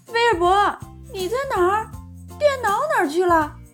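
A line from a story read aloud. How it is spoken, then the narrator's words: Calling out. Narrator (Chinese): 温妮叫道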